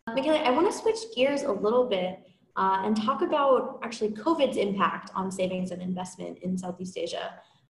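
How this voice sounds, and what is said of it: American accent. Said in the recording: “I'm sure you can tell from my accent that I'm American”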